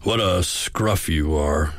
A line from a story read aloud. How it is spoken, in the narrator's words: he grunted